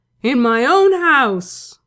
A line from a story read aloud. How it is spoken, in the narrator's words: Crowley roared